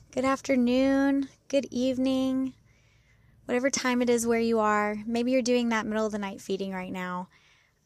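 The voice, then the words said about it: Slightly hoarse voice that sometimes cracks. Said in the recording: “excuse my voice if it starts to crack. I lost my voice ... it's back mostly now, but it sometimes cracks a little bit”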